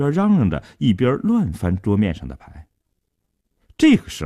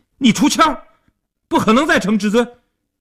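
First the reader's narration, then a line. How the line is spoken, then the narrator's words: Anxious loud shout. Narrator (Chinese): 阿生一看急了，大声地嚷道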